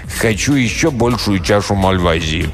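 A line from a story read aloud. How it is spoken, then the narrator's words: Commanding tone. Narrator (Russian): повелительным тоном проговорил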